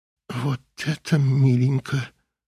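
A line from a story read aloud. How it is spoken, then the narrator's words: Mother whispering. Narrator (Russian): прошептала мать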